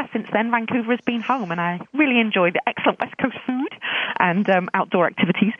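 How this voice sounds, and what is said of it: British accent. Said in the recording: “as you can probably tell from my accent, I'm a British origin. I was born in London and lived in South Wales”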